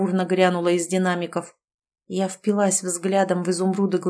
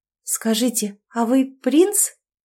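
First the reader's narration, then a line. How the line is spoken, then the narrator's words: Trembling voice. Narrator (Russian): Дрогнувшим голосом произнесла я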